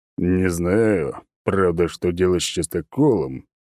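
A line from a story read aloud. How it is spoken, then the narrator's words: Deep bass voice. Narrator (Russian): пробасил он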